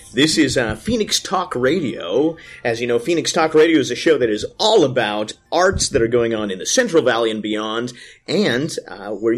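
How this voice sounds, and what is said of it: Announcer-style radio voice. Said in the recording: “Your radio voice just turned on.”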